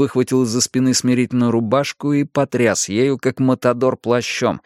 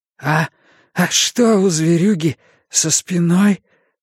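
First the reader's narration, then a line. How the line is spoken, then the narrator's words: Hoarse question. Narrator (Russian): осипшим голосом спросил Перси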